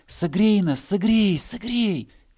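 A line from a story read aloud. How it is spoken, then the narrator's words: Grass blades crying out. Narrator (Russian): кричали травинки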